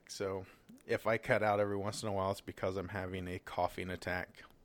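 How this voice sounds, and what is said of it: Sick-sounding voice. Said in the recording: “You're still sick, I can tell.”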